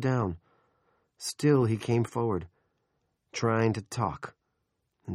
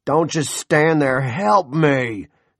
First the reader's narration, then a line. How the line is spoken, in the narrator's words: Big Jim roared at his son